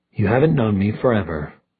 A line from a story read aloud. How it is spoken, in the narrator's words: Magnus muttered, but it was half-hearted